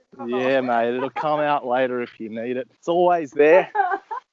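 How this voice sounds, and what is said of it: Exaggerated broad Australian accent. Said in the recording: “my accent's fairly not too Australian, and I can speak Australian for you if you want ... It's like it's coming out ... Okay, put it away”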